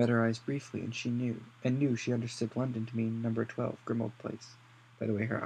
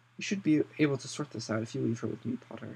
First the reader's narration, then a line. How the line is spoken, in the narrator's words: she said